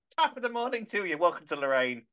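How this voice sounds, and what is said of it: Put-on Irish accent. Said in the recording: “Irish now, is she? She's Irish.”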